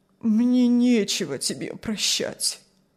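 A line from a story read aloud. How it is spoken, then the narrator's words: Sad old man. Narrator (Russian): ответил старик печально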